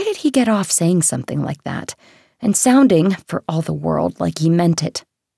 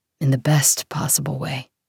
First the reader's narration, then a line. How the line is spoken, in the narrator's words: Grayson said quietly